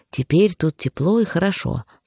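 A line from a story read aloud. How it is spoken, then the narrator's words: Whisper. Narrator (Russian): прошептал простодурсен яйцу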